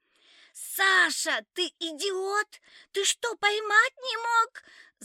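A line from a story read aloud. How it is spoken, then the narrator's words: Screaming. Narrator (Russian): завопила Валька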